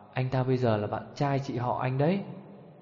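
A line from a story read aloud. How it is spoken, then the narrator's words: Soft whisper in ear. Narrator (Vietnamese): Trình Chanh khẽ khàng ghé tai Tô Vận Cẩm bảo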